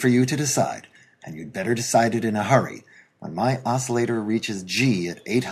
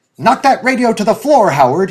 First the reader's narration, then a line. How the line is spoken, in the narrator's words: he yelled at the top of his voice